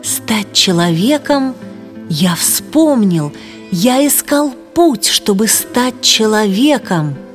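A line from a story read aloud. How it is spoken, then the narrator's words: Admiring exclamation after pause. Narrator (Russian): Путник помолчал, а потом восхищенно воскликнул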